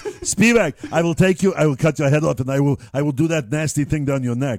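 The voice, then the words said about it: German accent impression. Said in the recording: “an impression of, say, someone from Nazi Germany”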